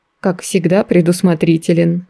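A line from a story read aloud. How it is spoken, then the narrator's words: Amused snort. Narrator (Russian): хмыкнул художник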